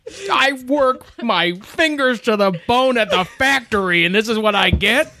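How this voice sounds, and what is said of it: Imitates another person's voice. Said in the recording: “this is my John Goodman impression ... It's pretty good.”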